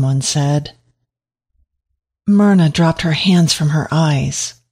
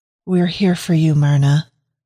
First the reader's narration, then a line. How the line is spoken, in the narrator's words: the voice said